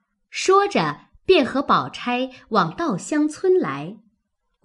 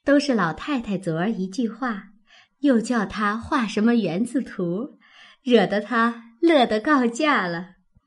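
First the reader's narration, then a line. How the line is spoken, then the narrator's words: Laughing. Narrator (Chinese): 黛玉笑道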